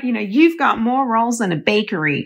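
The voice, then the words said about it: Put-on American accent. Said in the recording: “she was American. Oh, should I put on an American accent?”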